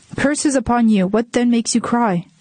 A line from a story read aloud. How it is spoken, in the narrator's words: The emperor shouted